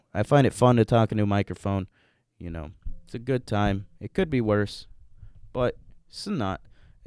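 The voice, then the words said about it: Polished radio announcer voice. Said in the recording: “you can kind of tell by my voice, you know. I'm always doing, uh, I'm always doing a radio voice”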